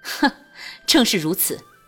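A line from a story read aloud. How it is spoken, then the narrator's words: Loud laughter. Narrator (Chinese): 俊玉大笑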